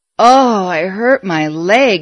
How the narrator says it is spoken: he groaned

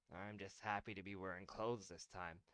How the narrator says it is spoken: Derman muttered

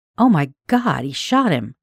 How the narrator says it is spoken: exclaimed

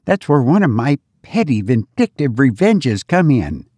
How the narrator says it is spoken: added Laura with an unrepentant chuckle

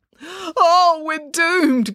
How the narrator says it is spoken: groaned Dad

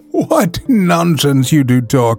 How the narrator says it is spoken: replied the prefect, laughing harder

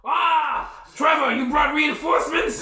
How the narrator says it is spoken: It embeds itself right in his chest, and he yells out

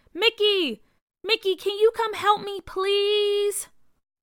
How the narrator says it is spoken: continued to wave and yelled

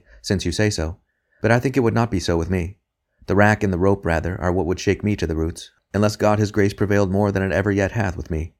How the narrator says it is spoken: he said gently

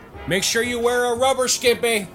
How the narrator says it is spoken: Willie yelled out

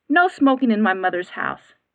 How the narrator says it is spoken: stated firmly

